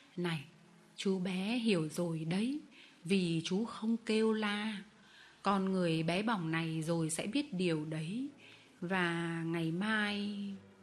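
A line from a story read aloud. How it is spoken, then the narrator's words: Gentle old man. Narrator (Vietnamese): ông cụ Vitali lấy đầu ngón tay vỗ khẽ lên má tôi, nói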